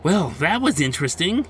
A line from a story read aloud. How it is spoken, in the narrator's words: said a little too excitedly